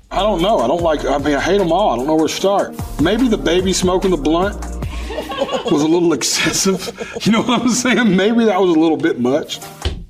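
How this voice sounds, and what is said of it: Speaker with a noticeable accent. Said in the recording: “I love his accent, too.”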